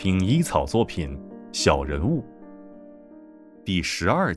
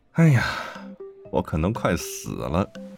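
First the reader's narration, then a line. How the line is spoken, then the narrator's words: Long drawn sigh. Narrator (Chinese): 大佐忽然悠长的长叹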